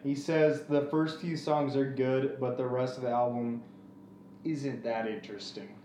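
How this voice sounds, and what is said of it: Imitates another person's voice. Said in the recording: “Was that a good Jonathan impression? ... That was a pretty good Jonathan impression.”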